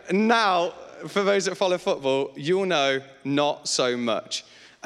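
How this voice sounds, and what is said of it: Leicester English accent. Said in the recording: “I'm from Leicester. So I apologize for the horrendous accent, because nobody goes, oh, I'd like a Leicester accent. ... So when I leave words short”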